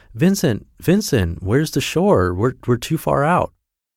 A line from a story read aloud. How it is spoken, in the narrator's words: Anton cries out